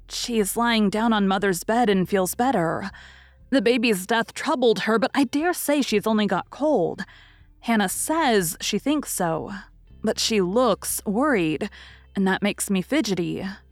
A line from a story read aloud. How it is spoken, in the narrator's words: answered Meg